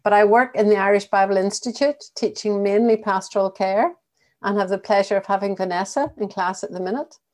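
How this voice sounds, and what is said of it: Northern Irish accent. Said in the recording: “originally from County Antrim, that's where the accent comes from”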